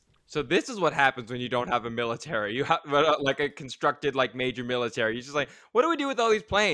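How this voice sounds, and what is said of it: Usual voice. Nothing is said of it.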